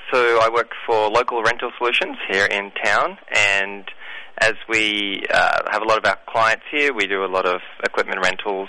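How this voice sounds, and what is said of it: Australian accent. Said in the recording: “born in Australia ... that accounts for the lovely accent”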